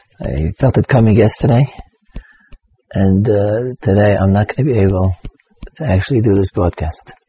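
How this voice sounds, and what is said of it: Whispering, lost voice. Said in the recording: “as you can hear, I've lost my voice. ... So I hope you can hear me whispering.”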